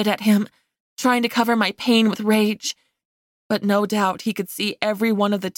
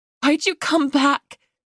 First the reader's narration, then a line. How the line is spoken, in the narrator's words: I choked out